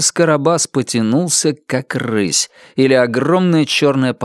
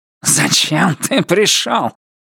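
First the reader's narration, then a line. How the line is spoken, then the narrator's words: Hiss. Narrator (Russian): прошипел мистер Крупп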